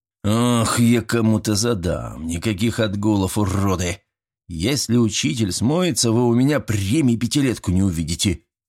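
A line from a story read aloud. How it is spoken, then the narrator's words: Quiet hiss. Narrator (Russian): тихо прошипел Звениконь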